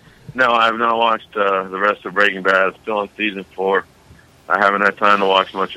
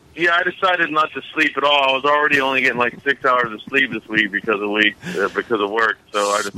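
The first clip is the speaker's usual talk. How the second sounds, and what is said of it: Sarcastic tone. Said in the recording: “Are you being sarcastic? ... yes. Oh, yes, okay. I am.”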